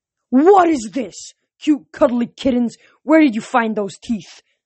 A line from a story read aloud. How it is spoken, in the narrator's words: The general roared